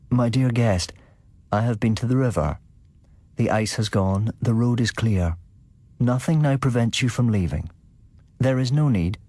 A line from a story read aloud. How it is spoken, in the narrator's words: He said to me, quite calmly